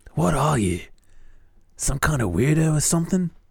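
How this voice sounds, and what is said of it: Comic character voice, imitates comedian. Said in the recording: “Why does he sound like Bobcat Goldthwait? ... I should probably do a voice.”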